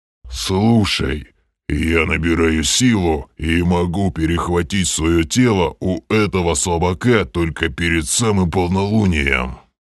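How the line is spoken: Growled. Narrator (Russian): прорычал Грим

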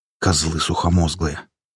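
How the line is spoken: Muttering. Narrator (Russian): пробурчал Рябой

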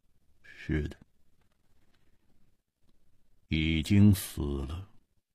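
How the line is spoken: Cold. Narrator (Chinese): 沙大户的声音显得冰冷，他说

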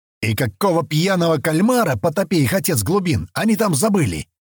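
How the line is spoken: Furious spluttering yell. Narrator (Russian): Заорал, брызгая слюной, Дианадох

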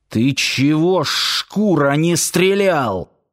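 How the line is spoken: Hissed. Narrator (Russian): прошипел

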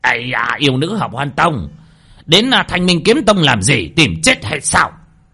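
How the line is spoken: Sudden shout from inside. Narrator (Vietnamese): bất thình lình ở bên trong nghe đến tiếng hét

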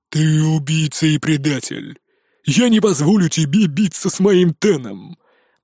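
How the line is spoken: Growl. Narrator (Russian): прорычал

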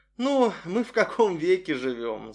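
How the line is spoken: Laughing girl. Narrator (Russian): засмеялась девушка

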